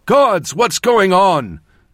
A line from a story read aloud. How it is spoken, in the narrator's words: Xavier, my brother, I had feared dead, shouted from behind me